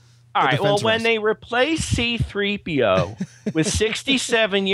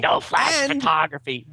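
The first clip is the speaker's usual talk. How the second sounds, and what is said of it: Carrie Fisher impression. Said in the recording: “best Carrie Fisher impression”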